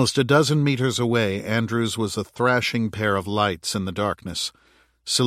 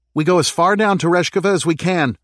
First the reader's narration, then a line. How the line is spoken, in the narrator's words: Roshan called out